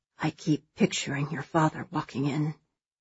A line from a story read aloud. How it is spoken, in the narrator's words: he murmurs